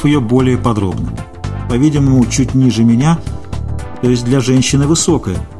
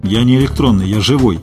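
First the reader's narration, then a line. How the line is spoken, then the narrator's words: Angry objection. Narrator (Russian): сердито возразил я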